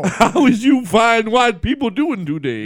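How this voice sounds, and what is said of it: Imitates another person's voice. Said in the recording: “If you want, I'll do Shaq. ... That's not what Shaq sounds like.”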